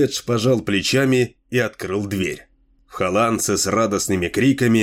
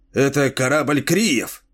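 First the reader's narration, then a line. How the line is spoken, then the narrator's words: Excited exclamation. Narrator (Russian): взволнованно воскликнул Лабдибдин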